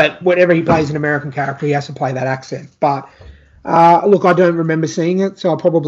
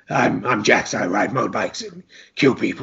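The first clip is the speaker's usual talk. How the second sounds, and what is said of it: Gruff American accent. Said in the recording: “he can only do the one American accent ... Which is gruff”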